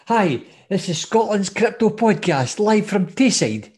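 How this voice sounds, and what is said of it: Put-on Dundee Tayside Scottish accent. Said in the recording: “I'll do it for Dundee. I'll do a Taysider. ... our listeners have just dropped with that accent”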